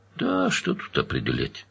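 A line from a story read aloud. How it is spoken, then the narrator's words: Bored. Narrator (Russian): скучным голосом сказал Довнер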